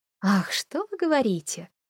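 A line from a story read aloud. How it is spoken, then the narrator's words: Flirtatious laughing. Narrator (Russian): кокетливо засмеялся Холли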